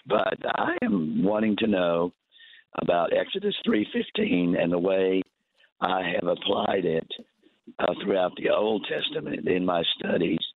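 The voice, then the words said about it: Hoarse voice. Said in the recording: “Pardon my hoarseness. I didn't think I'd wake up hoarse this morning.”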